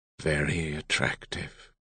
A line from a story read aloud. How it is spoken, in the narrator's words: Kalexel murmured